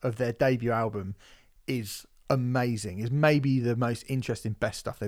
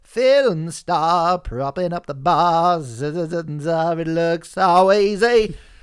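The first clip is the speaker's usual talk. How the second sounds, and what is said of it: Good impression of a singer's voice. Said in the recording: “It's Brett Anderson. ... It's a good impression. ... It's quite a good impression.”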